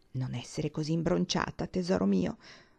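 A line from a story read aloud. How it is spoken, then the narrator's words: Whisper. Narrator (Italian): le bisbigliò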